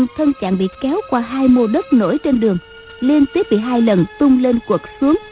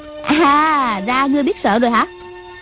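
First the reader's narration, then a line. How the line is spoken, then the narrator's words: Scornful girl's question. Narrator (Vietnamese): Thiếu nữ cười khẩy hỏi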